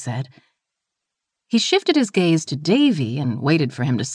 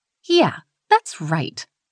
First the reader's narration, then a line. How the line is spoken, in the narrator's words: she snapped